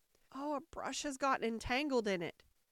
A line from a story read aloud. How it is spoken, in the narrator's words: the Queen said with a sigh